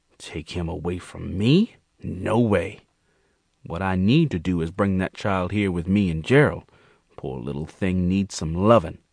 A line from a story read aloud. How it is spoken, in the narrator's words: Queen muttered to herself